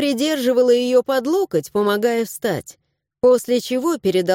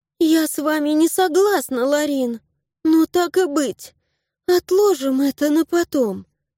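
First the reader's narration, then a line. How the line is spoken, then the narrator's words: Sigh. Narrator (Russian): вздохнула Аннабель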